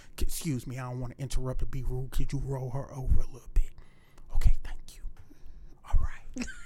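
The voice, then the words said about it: Whispering. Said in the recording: “Why you whispering, though?”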